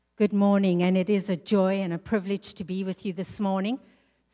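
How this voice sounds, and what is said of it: South African accent. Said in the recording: “they're originally from South Africa, so you will love her accent”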